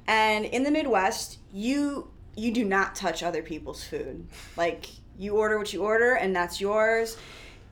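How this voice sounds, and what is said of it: Midwestern American accent. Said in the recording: “I'm from the Midwest, as you guys know, probably, I mean, just by my accent.”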